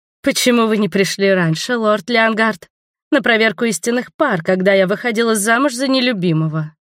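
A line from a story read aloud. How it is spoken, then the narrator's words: Exclaimed. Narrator (Russian): воскликнула Валери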